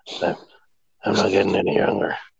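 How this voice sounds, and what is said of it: Imitates another person's voice. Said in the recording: “Do your impression? ... Oh, that's not bad.”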